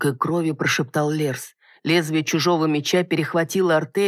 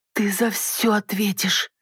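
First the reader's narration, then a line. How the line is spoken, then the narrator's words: Hateful, tearful, through teeth. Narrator (Russian): Сквозь слезы процедила, ненавидящим взглядом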